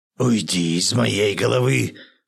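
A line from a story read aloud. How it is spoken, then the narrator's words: Hoarse wheeze. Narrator (Russian): прохрипел Юдин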